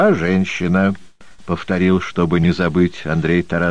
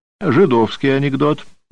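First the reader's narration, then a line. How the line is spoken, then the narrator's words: Resolute exclamation. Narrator (Russian): воскликнул самым решительным тоном Михаил Григорьевич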